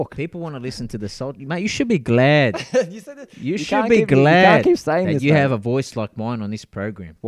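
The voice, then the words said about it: Put-on accent. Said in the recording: “you get bore into a certain accent? I don't know where the accent comes from.”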